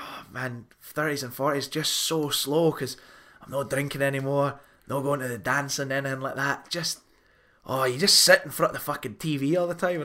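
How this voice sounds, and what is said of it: Thick put-on Scottish accent. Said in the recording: “that thicker Scottish accent that you've given to them ... you've given this person Scottish accent”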